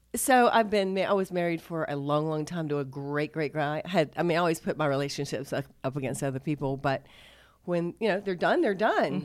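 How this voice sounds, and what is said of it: Congested, stuffy-nosed voice. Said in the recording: “I have a cold today, so I might sound a little funny.”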